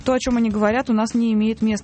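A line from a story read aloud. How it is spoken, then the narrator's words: Plain. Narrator (Russian): сказала Зелинская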